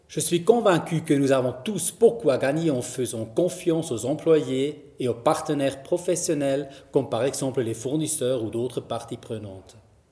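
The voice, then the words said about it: Zurich-accented French. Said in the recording (French): “un background de juriste, de Zurich, pour celles et ceux qui sont en train de se questionner sur mon accent”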